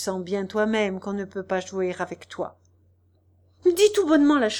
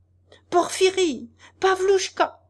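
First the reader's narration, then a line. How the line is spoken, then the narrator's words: Furious full-throated yell. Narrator (French): cria à plein gosier Nozdrev furieux, tout en s'efforçant d'échapper aux étreintes de son convié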